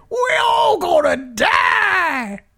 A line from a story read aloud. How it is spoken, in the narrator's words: he runs down the street screaming